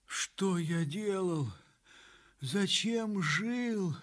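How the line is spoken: Moaning. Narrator (Russian): стонал он

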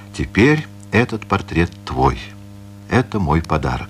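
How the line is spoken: Solemn statement. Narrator (Russian): торжественно поставил его на угловой камин и сказал

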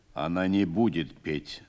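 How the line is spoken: Calm commander speaking. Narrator (Russian): спокойно сказал командир

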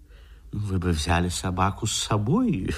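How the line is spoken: Uncertain. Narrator (Russian): Неуверенно проговорил художник

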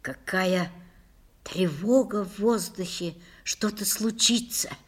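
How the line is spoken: Whisper. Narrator (Russian): прошептала Лиля

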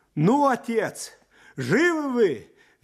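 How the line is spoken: Shouted cheerfully. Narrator (Russian): весело кричал он

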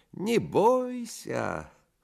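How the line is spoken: Thin singsong voice. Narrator (Russian): Селифан примолвил тонким певучим голоском

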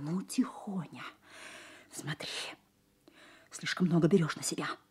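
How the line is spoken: Angry whisper. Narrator (Russian): Сказала злым шепотом

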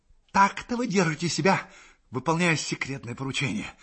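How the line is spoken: Hissed. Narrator (Russian): прошипел он

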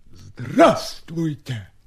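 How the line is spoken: Barked inside head. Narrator (Russian): рявкнул кто-то в голове у Степы

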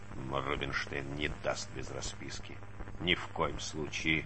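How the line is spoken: Grumbling. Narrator (Russian): забурчал он

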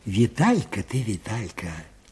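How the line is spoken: Quiet repetition. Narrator (Russian): тихо повторил Аниськин

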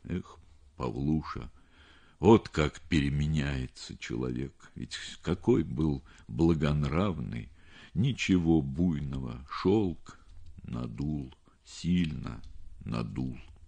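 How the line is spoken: Weak sighing voice. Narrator (Russian): произнес он слабым голосом, тяжело вздохнул

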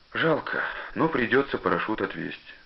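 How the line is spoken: Father saying, sighing. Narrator (Russian): сказал отец и вздохнул

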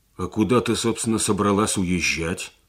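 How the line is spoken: Angry, surprised question. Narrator (Russian): спросил Сергей сердито, поражаясь ее проницательности

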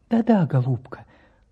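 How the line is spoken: Tender reply. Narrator (Russian): Ласково отозвался профессор

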